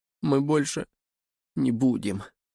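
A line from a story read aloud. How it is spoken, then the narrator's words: Trembling voice. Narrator (Russian): начал Мейсон дрожащим голосом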